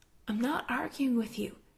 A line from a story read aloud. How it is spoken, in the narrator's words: Jared says quietly